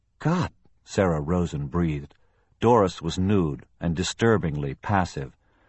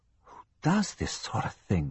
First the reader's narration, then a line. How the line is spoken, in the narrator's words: Sarah whispered to herself